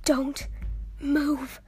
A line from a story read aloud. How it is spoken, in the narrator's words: Ash whispered to Jax